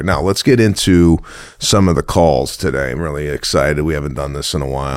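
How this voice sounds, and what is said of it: Husky, congested morning voice. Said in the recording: “my voice is still in bed. ... It's really husky. ... I'm dealing with a slight congestion problem.”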